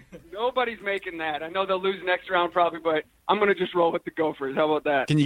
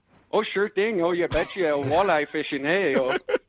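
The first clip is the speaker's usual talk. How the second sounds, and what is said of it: Put-on Minnesota accent. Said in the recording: “Can you give us a quick Minnesota accent? ... Perfect.”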